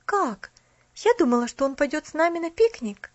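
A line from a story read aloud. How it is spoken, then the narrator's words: Exclaimed. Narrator (Russian): воскликнула она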